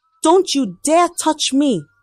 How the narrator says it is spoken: shouted, her eyes blazing with anger

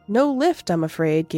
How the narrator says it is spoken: Gabriel said

